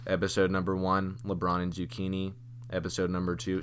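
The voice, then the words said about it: Monotonous radio-announcer reading voice. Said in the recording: “See that's monotonous... my book voice... your AM radio voice... my AM radio voice”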